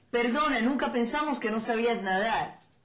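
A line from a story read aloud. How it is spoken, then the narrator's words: Alarmed exclamation. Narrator (Spanish): alarmados exclamaron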